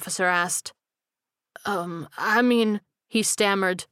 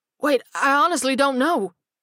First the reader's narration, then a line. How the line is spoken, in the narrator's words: the prisoner cried